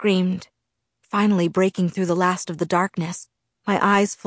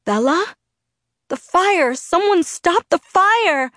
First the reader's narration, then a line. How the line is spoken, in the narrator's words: I screamed as it burned me